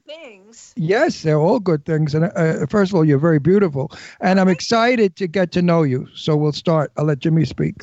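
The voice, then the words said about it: New York accent. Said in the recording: “I never lost my New York accent”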